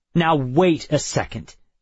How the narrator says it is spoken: I snapped

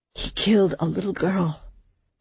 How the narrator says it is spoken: Samson said, his voice hard

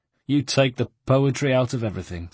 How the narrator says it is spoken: said Ugo, sadly

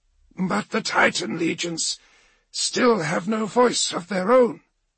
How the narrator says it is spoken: Tevera wheezed

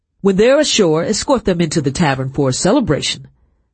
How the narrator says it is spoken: the captain said loudly

